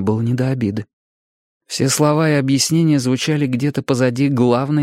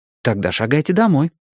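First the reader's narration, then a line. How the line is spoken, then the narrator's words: Quick agreement. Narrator (Russian): быстро согласился я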